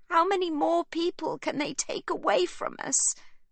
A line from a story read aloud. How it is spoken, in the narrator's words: sobs Livy